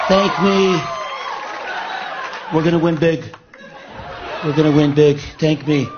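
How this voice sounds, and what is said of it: Impression of Donald Trump. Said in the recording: “Jimmy Fallon doing his impersonation of Trump”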